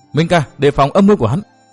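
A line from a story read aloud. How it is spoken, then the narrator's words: Shouted warning. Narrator (Vietnamese): Phương Tử Ngọc la lên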